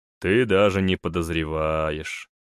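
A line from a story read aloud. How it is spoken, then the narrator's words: Unexpectedly tired voice. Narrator (Russian): сказал Ральфи неожиданно усталым голосом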